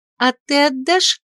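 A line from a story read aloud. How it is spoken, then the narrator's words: Sly question. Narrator (Russian): лукаво поинтересовалась сестра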